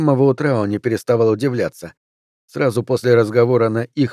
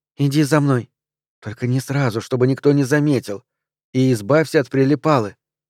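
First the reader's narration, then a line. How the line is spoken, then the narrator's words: Quick whisper. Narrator (Russian): Пэн быстро прошептала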